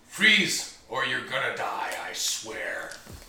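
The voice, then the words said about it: Deep-voiced female character. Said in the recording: “She's got a deep voice.”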